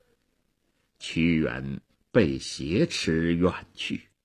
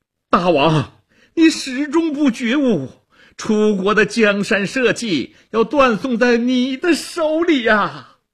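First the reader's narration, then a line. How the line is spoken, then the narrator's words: Straining loud cry. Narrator (Chinese): 屈原挣扎着高喊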